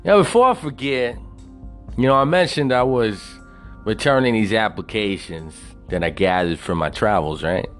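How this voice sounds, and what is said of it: Southern American twang. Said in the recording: “that hobo with a southern twang show”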